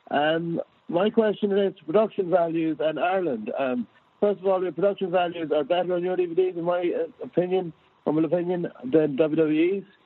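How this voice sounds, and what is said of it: Blocked-up, congested voice. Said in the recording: “Apologies if I'm a bit blocked, I have a cold.”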